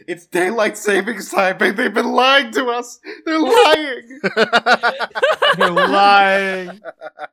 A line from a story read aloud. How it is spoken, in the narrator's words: Someone screaming